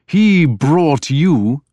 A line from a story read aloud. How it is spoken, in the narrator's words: the king spat